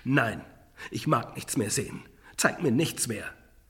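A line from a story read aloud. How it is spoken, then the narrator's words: Calling out. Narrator (German): rief Scrooge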